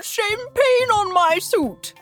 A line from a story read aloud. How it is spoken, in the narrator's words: whined one passenger the clearest